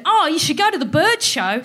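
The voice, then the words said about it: Imitating Felicity Ward's accent. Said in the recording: “Felicity Ward said ... Sorry about the accent.”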